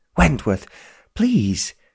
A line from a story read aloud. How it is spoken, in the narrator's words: pleaded Sir Thomas